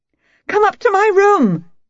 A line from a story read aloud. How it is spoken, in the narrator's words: she shrieked in my ear